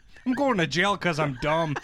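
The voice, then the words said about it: Put-on Canadian or Wisconsin-like accent. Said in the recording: “They're not Canadian. I don't know what accent I'm doing. ... It's not that dissimilar. ... Real parts of Ontario that sound a lot like Wisconsin.”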